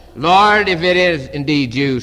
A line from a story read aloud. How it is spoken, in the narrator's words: said Peter